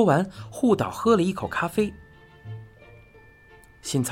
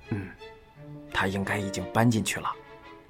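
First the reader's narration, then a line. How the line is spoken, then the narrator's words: Low reply. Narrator (Chinese): 护岛低声答道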